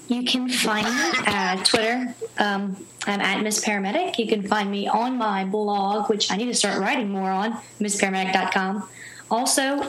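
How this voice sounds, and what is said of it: Southern American accent. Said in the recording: “Excuse my southern accent.”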